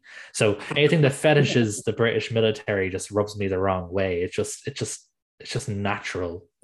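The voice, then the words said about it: Irish accent. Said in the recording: “as you can tell by my accent, I'm from Ireland”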